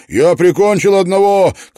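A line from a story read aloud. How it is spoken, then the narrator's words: Shouted. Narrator (Russian): крикнул он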